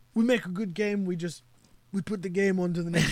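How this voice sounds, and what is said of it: Poor impersonation of another person. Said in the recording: “my poor impersonation”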